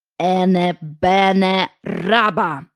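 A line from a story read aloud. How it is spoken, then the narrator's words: Slow recitation. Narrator (Ukrainian): Вона повільно проказала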